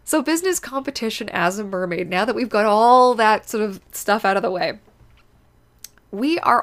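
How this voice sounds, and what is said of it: Sniffly, slightly congested voice. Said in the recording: “I apologize if I'm a little sniffly ... I got a little emotional, so the nose is going to be going a little bit”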